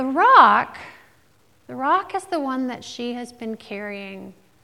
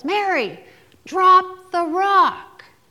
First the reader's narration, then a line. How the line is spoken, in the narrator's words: everybody yells